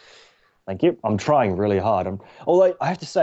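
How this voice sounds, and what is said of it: Usual voice. Nothing is said of it.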